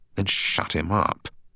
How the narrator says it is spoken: spat out Craig

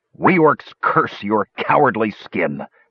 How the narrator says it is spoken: Flint growled

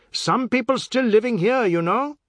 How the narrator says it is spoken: he banged on the partition and shouted

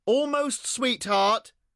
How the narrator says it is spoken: shouted Cleo

